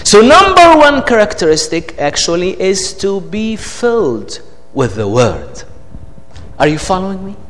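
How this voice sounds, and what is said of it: Speaks with an accent. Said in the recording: “you are not tired of my accent.”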